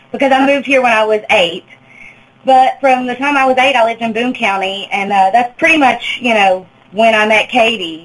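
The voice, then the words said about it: Appalachian accent with slight Arkansas flavor. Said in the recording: “my accent is actually a little bit different than the average Appalachian accent, because I do maintain a little bit of the Arkansas accent”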